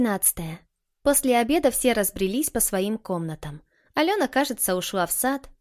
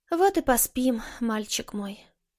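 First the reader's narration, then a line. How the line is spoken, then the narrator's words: Sighing. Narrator (Russian): вздохнула Маша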